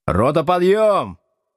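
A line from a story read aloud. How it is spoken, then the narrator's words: Shouting. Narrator (Russian): крикнул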